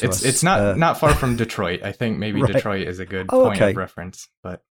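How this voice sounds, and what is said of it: American accent. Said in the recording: “And you're in America, of course... I can tell by your accent. Is it Buffalo you're from?”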